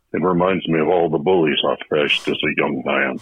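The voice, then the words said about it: Impression of Mitch McConnell. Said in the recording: “We got a message from Senate Majority Leader Mitch McConnell. Wasn't us.”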